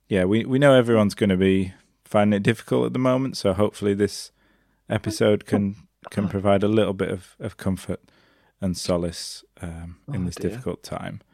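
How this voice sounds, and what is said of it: Sad, somber tone of voice. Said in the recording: “as you can probably tell from our tone of voice, bit of a sad and somber occasion”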